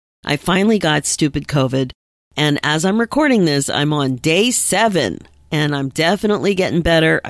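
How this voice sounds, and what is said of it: Voice not fully back to normal. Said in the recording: “my voice is still not 100% back”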